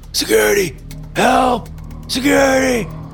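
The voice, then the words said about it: Hoarse shouting voice. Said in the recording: “he cried out in a hoarse voice”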